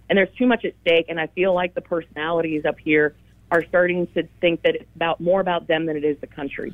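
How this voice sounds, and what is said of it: Frustrated, angry voice. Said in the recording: “I'm sure you can tell by my voice, I'm so frustrated and angry”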